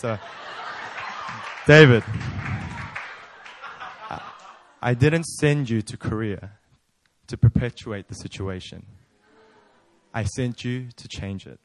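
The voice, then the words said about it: Deep, sexy put-on voice. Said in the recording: “God always speaks in that deep, sexy voice.”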